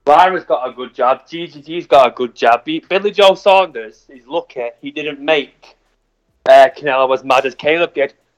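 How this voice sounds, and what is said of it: Strong accent, hard to follow. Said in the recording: “the accent killed me”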